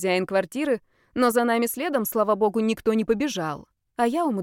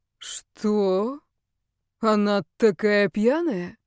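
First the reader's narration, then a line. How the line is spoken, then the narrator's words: Drawn-out, incredulous. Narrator (Russian): Недоверчиво протянул Даниил, не понимая, что происходит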